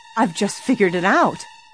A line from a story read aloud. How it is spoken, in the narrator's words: Suddenly, Nancy cried